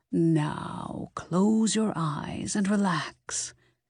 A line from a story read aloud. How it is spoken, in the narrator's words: Helen said in a low, soothing tone